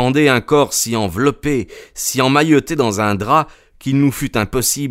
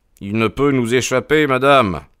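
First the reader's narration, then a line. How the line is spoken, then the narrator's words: Cold reply. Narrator (French): répondit froidement Sherlock Holmes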